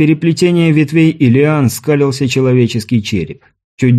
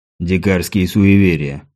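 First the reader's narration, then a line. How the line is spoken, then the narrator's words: Gruff mutter. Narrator (Russian): буркнул Грул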